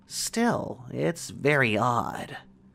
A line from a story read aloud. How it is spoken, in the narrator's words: murmured